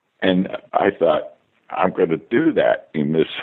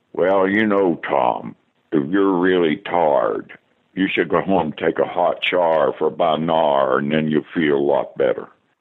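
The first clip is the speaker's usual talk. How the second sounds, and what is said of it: Old Oklahoma accent. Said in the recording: “he would talk in an old Oklahoma accent ... I want to do that kind of accent.”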